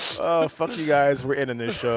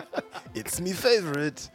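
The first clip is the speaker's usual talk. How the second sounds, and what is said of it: Bad put-on accent, Mario-like. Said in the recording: “That's a bad accent. ... What was that? Was that like Mario?”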